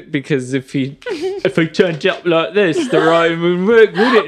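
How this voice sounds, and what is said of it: Mocking exaggerated British accent. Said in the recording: “I genuinely love when you do derogatory British accents. ... Because they're so hateful.”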